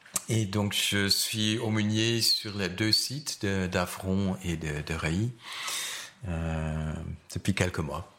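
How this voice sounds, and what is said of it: Slight Dutch accent in French. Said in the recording (French): “J'ai un petit accent, j'ai d'origine néerlandaise.”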